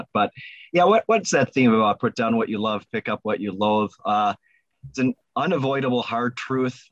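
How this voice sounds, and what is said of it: Voice lower than usual, allergy-affected. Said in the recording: “Today I'd be singing bass. I have some allergies going on, so my voice is a little lower today”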